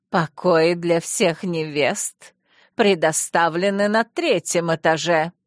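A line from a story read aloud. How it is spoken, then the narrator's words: Almost growling, queen. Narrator (Russian): королева почти рычала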